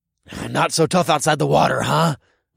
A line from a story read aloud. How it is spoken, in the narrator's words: I growled